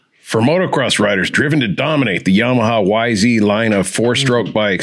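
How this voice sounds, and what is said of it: Announcer voiceover voice. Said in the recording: “You're going to do it like an announcer. ... do a funny voice ... announcer voiceover”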